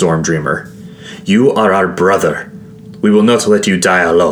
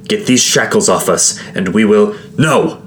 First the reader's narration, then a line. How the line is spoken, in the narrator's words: I barked